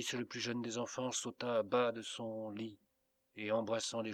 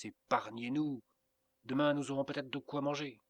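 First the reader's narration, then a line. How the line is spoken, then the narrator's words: Cried out. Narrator (French): s'écria Inès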